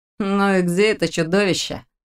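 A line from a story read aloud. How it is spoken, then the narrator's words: Lazy inquiry. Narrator (Russian): лениво поинтересовался Лерик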